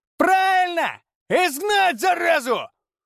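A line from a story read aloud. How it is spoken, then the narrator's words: Shout. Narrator (Russian): Кто-то крикнул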